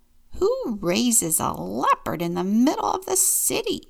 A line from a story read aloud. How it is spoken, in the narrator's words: the old woman grumbled